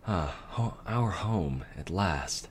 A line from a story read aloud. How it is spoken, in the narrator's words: the Dark Princess whispered